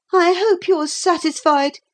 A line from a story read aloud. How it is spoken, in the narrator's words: he said bitterly